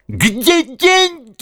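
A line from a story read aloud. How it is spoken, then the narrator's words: Shrieked. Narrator (Russian): взвизгнула она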